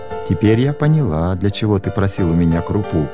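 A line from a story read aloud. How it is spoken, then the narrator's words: Laughing. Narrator (Russian): засмеялась мама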